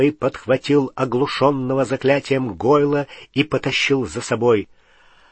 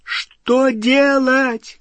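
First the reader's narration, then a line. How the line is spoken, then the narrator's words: Shouted over roaring fire. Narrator (Russian): крикнула Гермиона через гудение пламени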